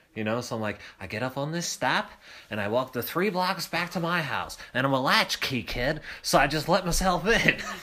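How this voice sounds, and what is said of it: Putting on a character voice. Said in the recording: “You're doing your Tui voice.”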